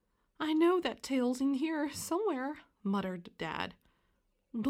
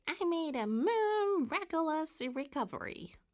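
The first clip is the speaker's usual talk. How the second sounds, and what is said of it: Squeaky high-pitched character voice. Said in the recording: “Mary Moo Cow answered in a squeaky voice.”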